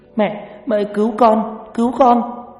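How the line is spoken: Anguished wailing cry. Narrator (Vietnamese): Mai bắt đầu gào khóc trong đau đớn

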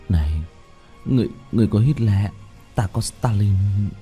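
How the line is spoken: Muttering. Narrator (Vietnamese): Mọi người lẩm bẩm

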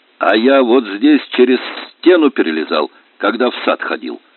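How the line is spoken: Plain. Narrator (Russian): сказал Аджин

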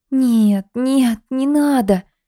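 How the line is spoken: Frightened moaning. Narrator (Russian): стонала Лида, опасаясь гнева неведомого хозяина

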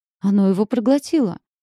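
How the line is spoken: Breathless astonished exclamation. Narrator (Russian): воскликнула Пипа, задыхаясь от собственного удивления

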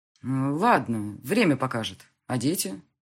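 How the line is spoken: Plain. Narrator (Russian): спросил он

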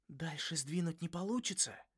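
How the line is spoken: Whispered question. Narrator (Russian): шепотом спросил Крис

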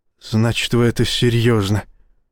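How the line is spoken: Dejected mutter. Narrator (Russian): упавшим голосом пробормотал капитан

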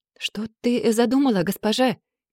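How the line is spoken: Trembling voice. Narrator (Russian): проговорила одна дрожащим голосом

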